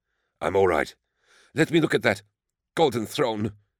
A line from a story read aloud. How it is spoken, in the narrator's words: gasped Crezia